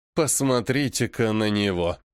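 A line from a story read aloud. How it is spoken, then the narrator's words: Said through gritted teeth. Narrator (Russian): цедит он сквозь зубы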